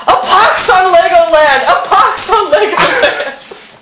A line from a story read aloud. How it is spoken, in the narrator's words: under his terrible agitation and screaming